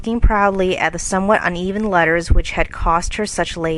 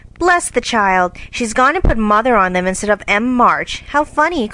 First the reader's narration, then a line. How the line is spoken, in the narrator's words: cried Jo